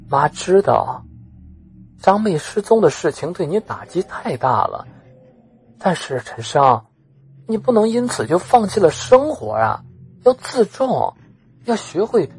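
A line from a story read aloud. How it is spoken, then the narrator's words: Sighing, earnest, comforting. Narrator (Chinese): 陈母悠悠的叹了口气，语重心长的安慰着陈生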